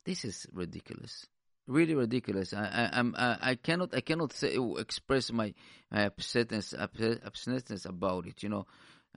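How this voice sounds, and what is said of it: Foreign accent in English. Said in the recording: “you can make fun about my accent”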